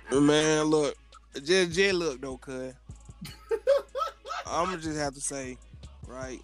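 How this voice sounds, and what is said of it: Strong Atlanta accent. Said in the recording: “came out with a strong ATL accent... That shit was strong, bro.”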